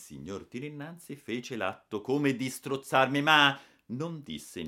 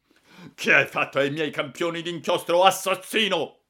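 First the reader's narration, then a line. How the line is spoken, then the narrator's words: Shouted. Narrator (Italian): ha gridato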